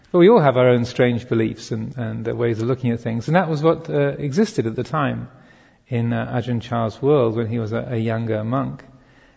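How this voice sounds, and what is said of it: English accent, slightly Americanized. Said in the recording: “my slightly modified English accent”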